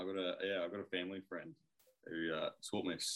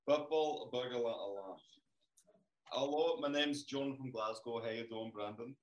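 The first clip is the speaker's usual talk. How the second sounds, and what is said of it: Put-on Scottish accent. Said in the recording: “You can do a good Scottish accent, actually.”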